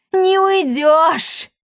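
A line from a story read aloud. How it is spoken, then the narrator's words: Spiteful triumphant laughter. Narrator (Russian): злобно расхохоталась Лионелла, почуяв, что сила теперь на ее стороне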